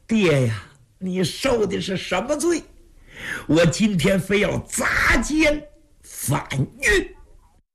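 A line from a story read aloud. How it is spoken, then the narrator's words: Gritted-teeth determination. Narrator (Chinese): 蒋昭一咬牙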